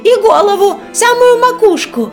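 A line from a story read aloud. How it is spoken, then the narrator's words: Hedgehog shouting. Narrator (Russian): крикнул ежик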